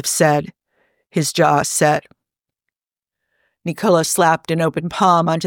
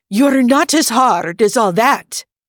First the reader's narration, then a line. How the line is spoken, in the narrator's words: he said sharply